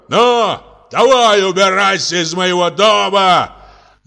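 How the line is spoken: Furious shouting. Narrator (Russian): Весь покраснев от гнева, кричал сверху вниз мужчина сыну

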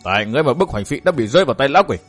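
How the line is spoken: Angry. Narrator (Vietnamese): Thạch Ngạo tức giận

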